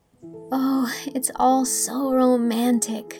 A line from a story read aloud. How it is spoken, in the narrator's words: breathed Anne